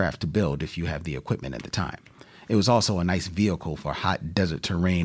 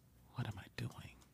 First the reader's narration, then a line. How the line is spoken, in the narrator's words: I whispered